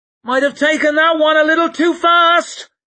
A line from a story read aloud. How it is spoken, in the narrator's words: she shouted in his ear